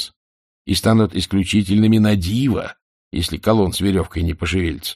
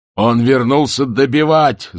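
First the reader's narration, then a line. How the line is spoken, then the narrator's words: Yelling. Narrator (Russian): заорал Ваймс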